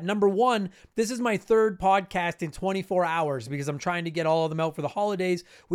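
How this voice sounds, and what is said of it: Voice higher than usual, worn. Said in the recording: “if my voice sounds a little bit more prepubescent than it normally does ... I'm just doing a lot of talking”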